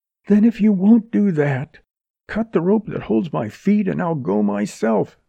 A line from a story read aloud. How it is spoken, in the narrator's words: she cried